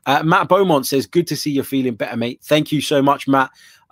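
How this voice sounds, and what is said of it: Bunged-up, congested voice. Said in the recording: “Still a bit bunged up, as you could probably tell from my voice.”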